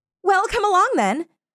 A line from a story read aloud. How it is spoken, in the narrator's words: cried